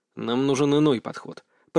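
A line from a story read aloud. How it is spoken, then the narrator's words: Muttering. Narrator (Russian): пробормотал я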